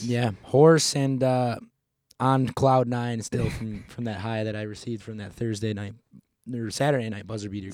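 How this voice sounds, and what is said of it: Hoarse voice. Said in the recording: “I think I'll just let my voice kind of answer that question for you. ... you're a little bit hoarse today ... hoarse”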